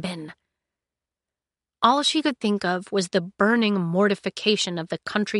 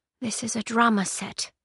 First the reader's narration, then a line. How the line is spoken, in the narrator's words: she whispered, quietly enough that they couldn't hear her